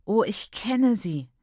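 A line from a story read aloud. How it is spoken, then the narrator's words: Groaning. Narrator (German): stöhnte Ntombi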